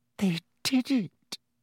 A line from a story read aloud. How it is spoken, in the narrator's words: she whispered to Harry